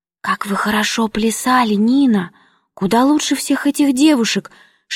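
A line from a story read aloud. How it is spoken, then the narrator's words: Enthusiastic whisper, male cousin. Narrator (Russian): шепнул восторженно двоюродный брат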